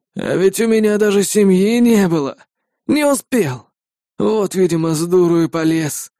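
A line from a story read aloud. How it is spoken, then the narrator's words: Heavy sigh. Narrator (Russian): тяжко выдохнул Матиас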